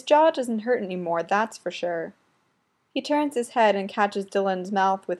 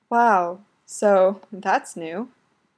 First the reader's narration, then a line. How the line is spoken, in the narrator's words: he says